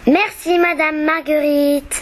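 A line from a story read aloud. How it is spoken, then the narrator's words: Plain. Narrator (French): dit Fanfan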